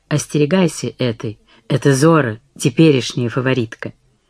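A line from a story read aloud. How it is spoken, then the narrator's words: Whisper. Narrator (Russian): Мари прошептала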